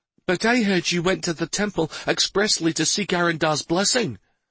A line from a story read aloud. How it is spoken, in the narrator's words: One of the women blurted out